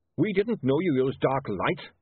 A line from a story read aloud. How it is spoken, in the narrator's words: snapped Goodmanton